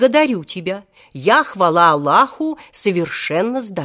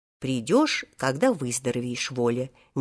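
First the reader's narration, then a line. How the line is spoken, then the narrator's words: Soft speech. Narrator (Russian): мягко сказал ему тогда директор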